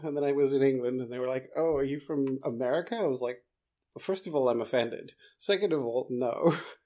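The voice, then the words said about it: Mixed, hard-to-place South African accent. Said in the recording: “I should have uh, figured from your accent that you weren't from here ... I've always had this weird accent ... you have an accent, but I can't quite tell where it's from ... nobody seems to know where it comes from. It's just a mishmash.”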